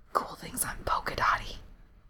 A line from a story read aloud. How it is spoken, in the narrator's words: Cherry whispered